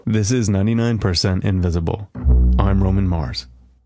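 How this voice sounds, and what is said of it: Serious radio announcer voice. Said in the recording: “serious voice. Serious radio voice.”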